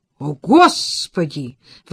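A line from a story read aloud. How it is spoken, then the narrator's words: Exclaimed. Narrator (Russian): воскликнула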